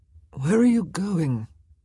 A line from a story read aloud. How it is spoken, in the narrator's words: Simon asked sleepily